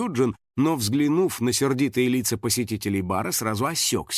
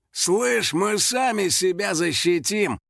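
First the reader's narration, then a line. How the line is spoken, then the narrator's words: Biker's growl. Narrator (Russian): прорычал один из байкеров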